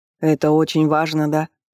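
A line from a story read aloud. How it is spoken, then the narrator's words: Through gritted teeth. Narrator (Russian): Юноша процедил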